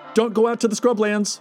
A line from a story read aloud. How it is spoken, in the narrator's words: Al added with a shout